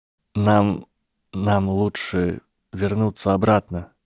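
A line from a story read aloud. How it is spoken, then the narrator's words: Trembling voice. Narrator (Russian): произнес Драко дрогнувшим голосом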